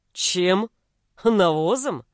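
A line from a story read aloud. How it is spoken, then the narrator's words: Chuckling. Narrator (Russian): Тут он хохотнул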